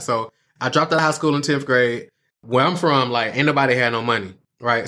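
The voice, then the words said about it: Atlanta Southern accent. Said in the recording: “It's in the accent ... I'm here in Atlanta, Georgia”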